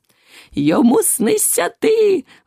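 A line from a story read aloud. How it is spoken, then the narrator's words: Joyful exclamation. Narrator (Ukrainian): вигукнув і радо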